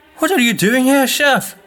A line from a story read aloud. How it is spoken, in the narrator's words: he exclaimed